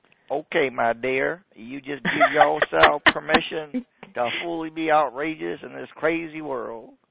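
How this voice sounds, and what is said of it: Put-on Alabama Southern accent. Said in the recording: “I got to put on my accent. Okay. Alabama.”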